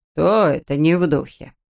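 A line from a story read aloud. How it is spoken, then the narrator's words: Displeased question. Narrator (Russian): недовольным тоном спросил папа Эрл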